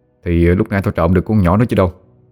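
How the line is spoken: Cold. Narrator (Vietnamese): Quân lạnh lùng nói

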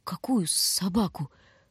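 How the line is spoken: Whispered. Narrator (Russian): Прошептал Бобка

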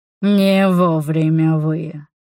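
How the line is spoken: Growl. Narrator (Russian): прорычал он

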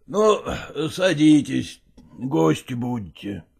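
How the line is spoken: Old man, heavy sigh. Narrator (Russian): Дедушка тяжело вздохнул и сказал

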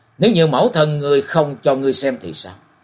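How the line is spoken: Loud, sorrowful. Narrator (Vietnamese): nặng trĩu vẻ buồn to tiếng nói

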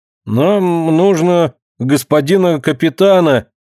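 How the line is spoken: Uncertain voice. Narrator (Russian): неуверенным голосом сказал Ленька

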